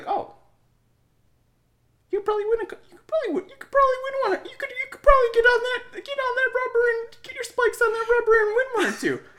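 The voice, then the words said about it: High-pitched impression of a coach. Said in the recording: “Is that your impression of your coach? ... So your coach, he's high pitched and very”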